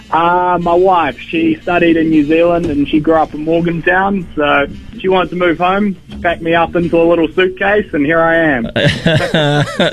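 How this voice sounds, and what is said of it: New Zealand accent. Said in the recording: “now it sounds Australian ... New Zealand”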